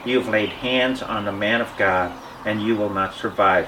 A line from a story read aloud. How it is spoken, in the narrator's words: she said